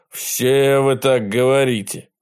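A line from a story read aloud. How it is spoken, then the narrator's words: Grumble. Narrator (Russian): проворчал полковник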